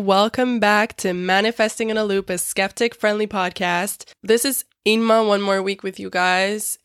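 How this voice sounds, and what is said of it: Sick, rough-sounding voice. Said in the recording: “my voice is terrible. I'm sick, as you can probably tell.”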